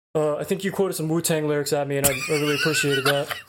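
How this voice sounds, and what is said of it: Imitates another person's voice. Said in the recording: “that was a good Dave Lang ... That was a really good Dave Lang impression ... That's actually not a good Dave Lang at all ... That's pretty good”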